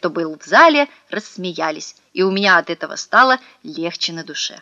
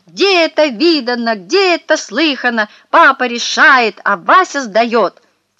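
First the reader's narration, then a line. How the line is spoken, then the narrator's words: Shouted. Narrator (Russian): прокричал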